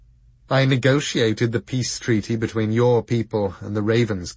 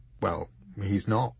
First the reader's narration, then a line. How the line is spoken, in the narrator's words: he muttered back